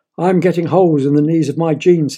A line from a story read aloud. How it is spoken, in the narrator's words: said his father